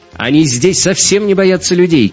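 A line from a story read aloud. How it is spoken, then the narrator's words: Shouting. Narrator (Russian): крикнула Мария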